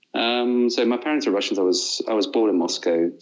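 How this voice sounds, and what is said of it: English-sounding accent, Russian speaker. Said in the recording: “the great professor of English at Moscow State University that gave me that accent. So I dabble and can dabble for an Englishman”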